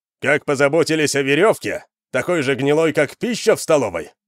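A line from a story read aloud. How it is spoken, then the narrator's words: Shout. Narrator (Russian): выкрикнул Вандар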